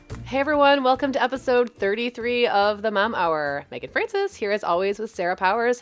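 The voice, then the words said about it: Slightly hoarse voice. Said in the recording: “I'm a little hoarse because I had family here all last week and I talked myself out of a voice”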